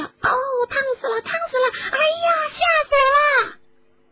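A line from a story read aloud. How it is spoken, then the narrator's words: Crowd shrieking. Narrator (Chinese): 大家在飞溅的肿胀药水的袭击下，纷纷的尖声大叫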